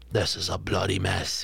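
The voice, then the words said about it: Imitated voice, slight English accent. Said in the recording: “in his Malcolm McDowell ... with his slight English accent.”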